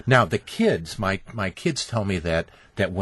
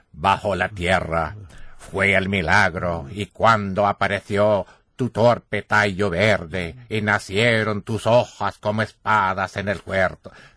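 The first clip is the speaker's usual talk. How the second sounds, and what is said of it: Impression of Pablo Neruda reciting. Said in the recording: “when I speak Spanish, they say that I sound exactly like Pablo Neruda ... Now, here's Pablo ... That's Pablo speaking through me”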